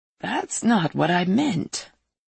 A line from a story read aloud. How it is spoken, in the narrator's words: the Pope said as he lowered his voice